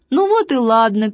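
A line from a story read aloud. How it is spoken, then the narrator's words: Shouted, laughing. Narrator (Russian): крикнул Важный, засмеялся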